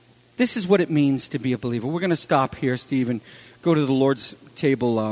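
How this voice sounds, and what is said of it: Usual voice. Nothing is said of it.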